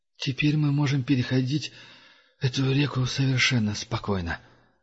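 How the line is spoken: Strained, forced out. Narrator (Russian): с трудом выдавил Дуга, от напряжения

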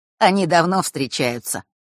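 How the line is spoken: Mocking explanation. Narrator (Russian): пояснил тот, насмешливо улыбаясь

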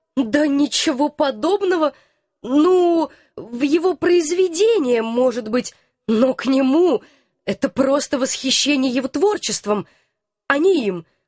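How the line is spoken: Timid babble. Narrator (Russian): пролепетала я

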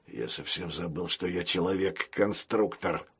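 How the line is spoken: Cyborg mumbling. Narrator (Russian): пробормотал киборг

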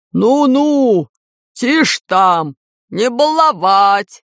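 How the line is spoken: Barked. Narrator (Russian): рявкнул Усыня

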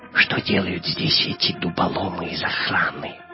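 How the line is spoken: Whispered into ear. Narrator (Russian): прошептал Гитлер на ухо своему камердинеру

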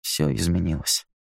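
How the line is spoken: Very quiet. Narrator (Russian): сказал Кевин так тихо, что без микрофона его никто бы не расслышал

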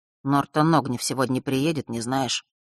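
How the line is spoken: Sudden quiet question. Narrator (Russian): вдруг тихо спросил он

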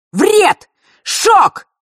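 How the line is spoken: Shouted out. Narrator (Russian): выкрикнул Миракл

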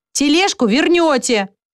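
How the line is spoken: Teacher's shout. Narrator (Russian): прокричал воспитатель Щепка

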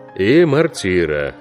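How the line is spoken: Gloomy. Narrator (Russian): мрачно сказал капитан

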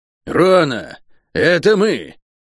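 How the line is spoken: Barking shout. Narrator (Russian): Проклятая гаркнула

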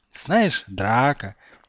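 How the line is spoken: Tender voice. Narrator (Russian): нежно сказал Гарри

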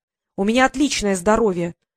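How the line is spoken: Indignant. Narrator (Russian): возмутилась Василиса

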